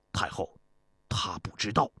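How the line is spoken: Low voice. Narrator (Chinese): 田国低声对太后说

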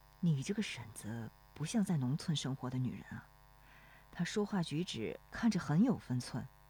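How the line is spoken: Low question. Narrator (Chinese): 罗生转头低声问

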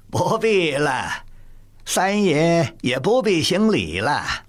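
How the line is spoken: Laughing in a shrill voice. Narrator (Chinese): 高无用拉着公鸭嗓儿笑说

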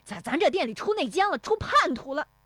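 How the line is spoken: Furious shouting. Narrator (Chinese): 石有福气急败坏的嚷

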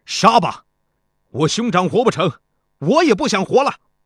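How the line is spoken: Furious outburst. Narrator (Chinese): 青年士兵再也忍不住了，他怒气冲冲地说

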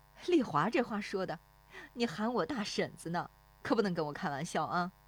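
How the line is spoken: Woman laughing. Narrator (Chinese): 那妇女跟着笑

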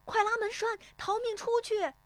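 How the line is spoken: Shout. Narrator (Chinese): 有人喊

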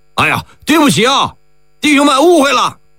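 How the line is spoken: Apologetic shout. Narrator (Chinese): 74军的士兵们 抱歉地喊呢

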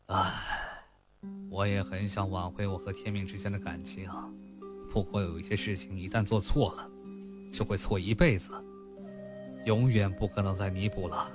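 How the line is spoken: Long sigh. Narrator (Chinese): 楼豪长长地叹了一声

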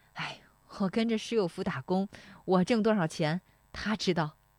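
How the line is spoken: Laughing. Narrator (Chinese): 石丽华笑说

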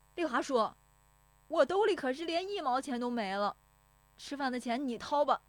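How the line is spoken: Shouting. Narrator (Chinese): 石有福撵着喊

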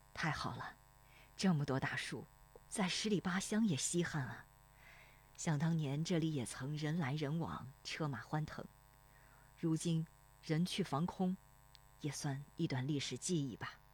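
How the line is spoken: Sighing. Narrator (Chinese): 罗生叹息

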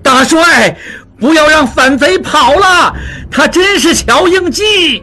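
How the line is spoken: Shouting. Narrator (Chinese): 望柏 还在叫着

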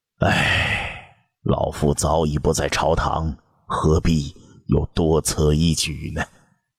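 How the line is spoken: Dejected sigh. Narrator (Chinese): 窦婴 他的目光又暗淡了，叹道

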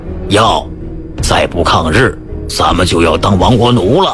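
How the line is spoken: Lowered, hushed voice. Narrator (Chinese): 军警压低了声音说

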